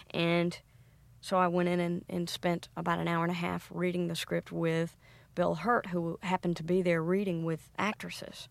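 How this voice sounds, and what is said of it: Southern US accent. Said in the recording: “you have a Southern accent. You grew up near Atlanta.”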